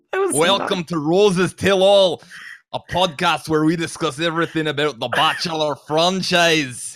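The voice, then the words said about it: Put-on Scottish accent. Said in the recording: “that accent ... It's from Scotland”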